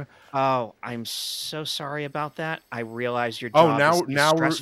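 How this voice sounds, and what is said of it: Sarcastic apologetic tone. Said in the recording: “Now we're being sarcastic.”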